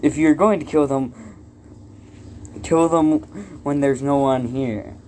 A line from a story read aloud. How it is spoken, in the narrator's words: Lighttail says sarcastically